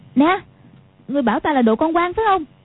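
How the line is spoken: Barking shout. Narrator (Vietnamese): Quách Phù quát lên

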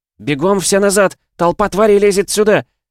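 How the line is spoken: Desperate shout. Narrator (Russian): Отчаявшись, я закричала

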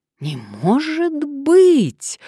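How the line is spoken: Surprised exclamation. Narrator (Russian): удивленно воскликнула Мария

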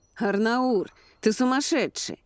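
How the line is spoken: Shouting man. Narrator (Russian): прокричал один из мужчин

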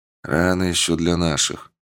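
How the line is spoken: Major's grumble. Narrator (Russian): буркнул майор

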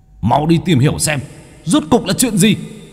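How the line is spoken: Angry roar. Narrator (Vietnamese): bốn kẻ kia gầm lên tức giận

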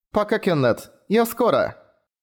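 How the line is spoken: Loud farewell. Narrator (Russian): Громко попрощалась

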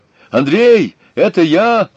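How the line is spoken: Shout from behind door. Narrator (Russian): крикнул голос из-за двери

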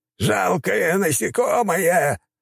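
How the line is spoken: Shout. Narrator (Russian): прокричал тот

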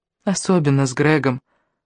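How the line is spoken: Sad reply. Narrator (Russian): грустно ответила она

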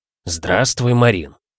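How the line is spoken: Deep, firm voice. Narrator (Russian): произнес он глубоким и твердым голосом

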